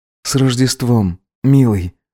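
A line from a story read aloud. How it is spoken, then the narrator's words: Whispered between kisses. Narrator (Russian): шептал между поцелуями ему Гедеон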